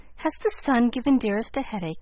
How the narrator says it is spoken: inquired anxiously

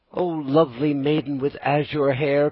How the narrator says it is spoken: cried Pinocchio

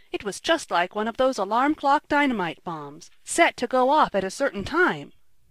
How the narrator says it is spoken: cried Ned

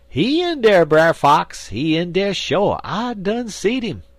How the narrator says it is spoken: Buzzard, he keep on hollerin'

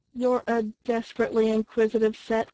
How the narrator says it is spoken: cried Tom Collins, laughing

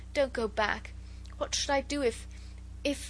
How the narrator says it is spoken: Her voice was choked in sobs

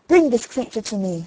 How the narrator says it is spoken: says he

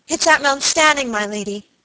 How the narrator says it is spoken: cried Phoebe Marks

